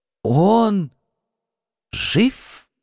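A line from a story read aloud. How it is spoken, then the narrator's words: Strained hoarse hiss. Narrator (Russian): Кое-как прохрипел, прошипел, я даже не найду подходящего слова, Алекс Бор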